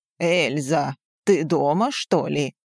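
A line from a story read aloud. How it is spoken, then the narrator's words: Deep rumbling thunderous voice. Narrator (Russian): Прогудел низкий, раскатистый голос, похожий на отдаленный гром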